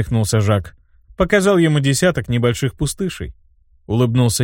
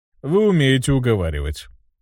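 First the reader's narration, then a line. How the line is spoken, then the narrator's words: Chuckled. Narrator (Russian): хохотнул Жак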